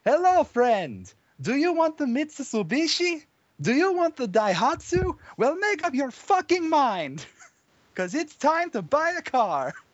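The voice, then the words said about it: Put-on Eastern European accent. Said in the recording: “a puzzling Eastern European accent struggling his way through an advertisement”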